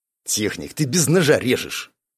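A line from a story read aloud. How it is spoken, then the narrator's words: Grumbling mutter. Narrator (Russian): пробурчал я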